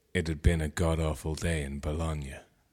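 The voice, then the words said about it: Deep voice. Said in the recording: “in a deep voice”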